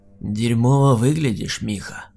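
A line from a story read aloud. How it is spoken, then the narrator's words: Monster's creaky voice. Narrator (Russian): проскрипел монстр, которого я знал под именем Дэн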